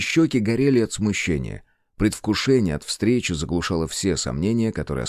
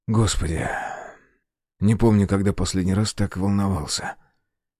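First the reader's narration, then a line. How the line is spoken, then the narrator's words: Breathless whisper. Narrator (Russian): выдохнул и прошептал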